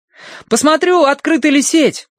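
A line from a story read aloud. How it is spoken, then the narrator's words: Boy shouting, running. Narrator (Russian): убегая вперед, крикнул мальчик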